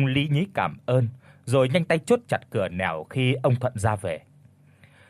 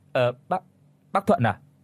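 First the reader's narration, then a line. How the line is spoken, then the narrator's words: Startled stammering. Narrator (Vietnamese): Bông giật mình lắp bắp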